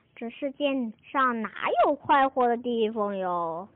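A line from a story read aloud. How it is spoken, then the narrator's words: Heavy sighing. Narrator (Chinese): 狐狸太太唉声叹气地说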